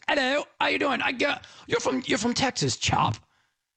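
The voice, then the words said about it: Put-on English accent. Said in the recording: “Dude from London ... he's got an English accent.”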